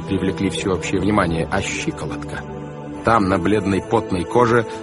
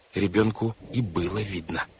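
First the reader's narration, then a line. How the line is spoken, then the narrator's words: Whispered. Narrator (Russian): шепнула Вайолет Клаусу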